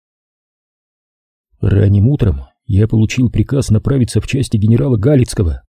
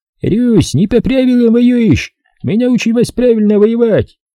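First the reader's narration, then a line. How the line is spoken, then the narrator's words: Shouting soldiers. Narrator (Russian): немецкие солдаты кричали нашим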